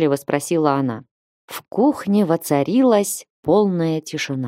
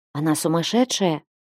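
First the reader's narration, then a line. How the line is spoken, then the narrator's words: Maid whispering. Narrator (Russian): прошептала одна из служанок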